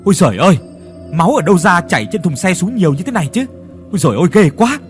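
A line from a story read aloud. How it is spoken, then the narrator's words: Sudden horrified scream. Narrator (Vietnamese): bỗng nhiên hét lên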